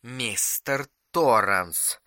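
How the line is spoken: Icy tone. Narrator (Russian): сказал Улман самым ледяным тоном

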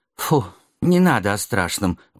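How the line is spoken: Pleading. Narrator (Russian): взмолился Валера

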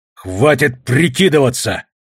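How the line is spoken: Barked. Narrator (Russian): рявкнул я

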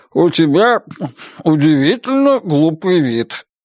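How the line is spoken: Mumbling with full mouth. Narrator (Russian): набив свининый рот, прошамкал Гарри Рекс

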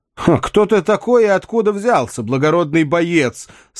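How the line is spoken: Speaking while laughing. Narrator (Russian): сказал принц Джон, продолжая смеяться

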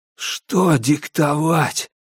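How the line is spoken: Hoarse rasp. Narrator (Russian): прохрипел я

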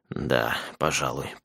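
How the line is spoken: Mumbled. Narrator (Russian): пробормотал он

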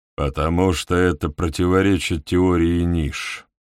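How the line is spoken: Calm reply. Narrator (Russian): спокойно отвечает Хак

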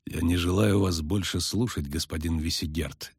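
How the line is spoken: Quiet. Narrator (Russian): тихо сказал Геральт

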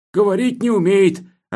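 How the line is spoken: Plain. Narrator (Russian): ответил комендант

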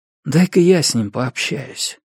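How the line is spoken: Quiet statement. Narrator (Russian): тихонько сказал Хилвар

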